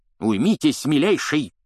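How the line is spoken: Barking. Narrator (Russian): рявкнул Фадж

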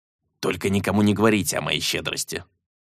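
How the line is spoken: Grumbling leprechaun. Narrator (Russian): буркнул лепрекон

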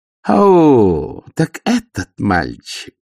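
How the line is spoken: Mocking growl. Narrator (Russian): насмешливо прорычала баронесса

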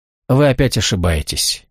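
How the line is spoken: Gentle objection. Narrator (Russian): мягко возразил он

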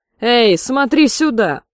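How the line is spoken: Shouted. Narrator (Russian): закричал Томми

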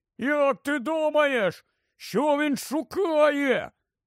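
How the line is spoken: Shouted. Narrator (Ukrainian): крикнув Рон

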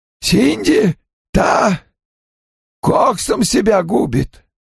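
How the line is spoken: Tearful hoarse rasp. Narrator (Russian): Сквозь слезы прохрипела она, как только вновь смогла заговорить

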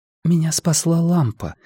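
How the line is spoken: Quiet. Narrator (Russian): тихо сказала Пенелопа

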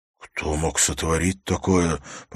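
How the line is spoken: Hoarse with horror. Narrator (Russian): произнес Хорос хриплым от ужаса голосом

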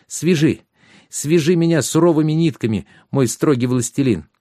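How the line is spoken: Sudden enthusiastic exclamation. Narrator (Russian): с неожиданным энтузиазмом воскликнула

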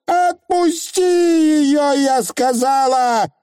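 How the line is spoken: Screamed. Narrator (Russian): завопила аннаграмма

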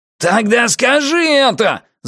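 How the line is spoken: Yelling. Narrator (Russian): заорал Пузан

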